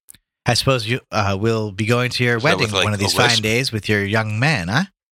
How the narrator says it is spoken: said Gabriel gaily

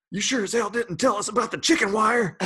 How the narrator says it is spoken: some dude stands up and screams

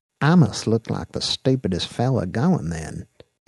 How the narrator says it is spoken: he murmured to Dax in his southern drawl

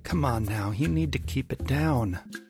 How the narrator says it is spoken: Arnold said, his voice weary

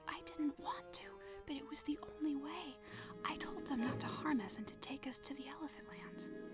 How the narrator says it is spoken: whispered

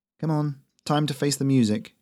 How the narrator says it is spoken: she muttered

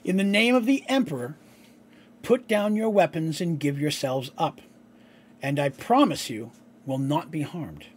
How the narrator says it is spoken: he said

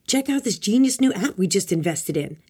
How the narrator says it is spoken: Italian Bob shouted

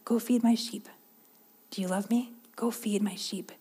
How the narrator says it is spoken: He gently says

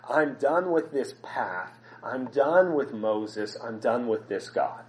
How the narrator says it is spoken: the grumbling that says

